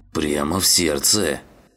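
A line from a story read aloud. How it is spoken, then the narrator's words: Grumbling. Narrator (Russian): проворчал он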